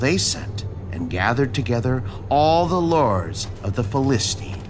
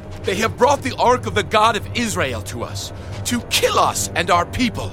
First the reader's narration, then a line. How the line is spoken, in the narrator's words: the Ekronites cried out